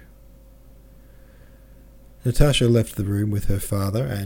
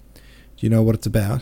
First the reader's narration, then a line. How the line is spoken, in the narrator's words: Petya asked Natasha